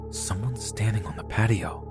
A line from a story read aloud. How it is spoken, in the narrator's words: I was terrified that I only whispered to him